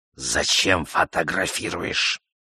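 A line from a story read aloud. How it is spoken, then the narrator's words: Gloomy hiss. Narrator (Russian): Он почернел, помрачнел, прошипел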